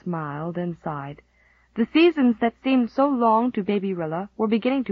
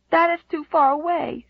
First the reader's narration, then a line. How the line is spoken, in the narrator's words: she sobbed